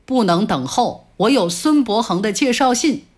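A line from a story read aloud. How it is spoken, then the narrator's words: Cold and angry. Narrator (Chinese): 我真有点生气了，也冷冷地说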